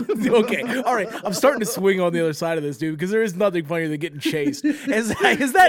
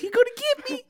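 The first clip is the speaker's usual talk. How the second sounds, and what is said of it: High-pitched voice. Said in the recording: “high voice.”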